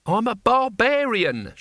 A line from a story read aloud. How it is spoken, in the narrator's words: shouted Cohen